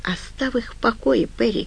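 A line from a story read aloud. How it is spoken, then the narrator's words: Weak voice. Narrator (Russian): сказал Марк слабым голосом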